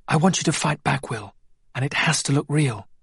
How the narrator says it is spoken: Jacob whispered

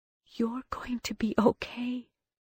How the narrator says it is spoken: she whispered

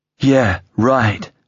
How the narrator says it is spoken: snorted

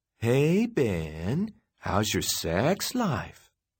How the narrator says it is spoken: Michelle said in a teasy voice

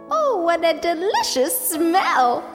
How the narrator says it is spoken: she exclaimed

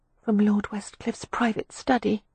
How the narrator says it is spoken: Beatrix muttered

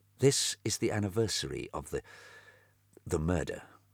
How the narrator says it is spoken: said quietly

